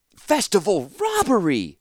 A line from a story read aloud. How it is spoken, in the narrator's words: Ratapi said dramatically